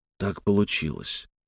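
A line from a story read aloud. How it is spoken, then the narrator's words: Quiet answer. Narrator (Russian): тихо ответил он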